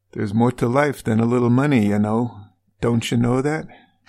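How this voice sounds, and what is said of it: Bad put-on Minnesota accent. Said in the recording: “How's my Minnesota accent? ... It's terrible. ... that's really bad.”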